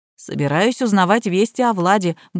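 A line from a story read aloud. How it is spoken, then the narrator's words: Grumbling. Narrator (Russian): буркнул Ян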